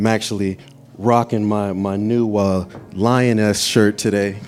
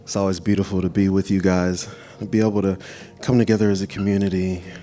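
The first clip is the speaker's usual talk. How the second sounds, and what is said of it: Smooth jazz-style voice. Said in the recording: “Put on my jazz voice”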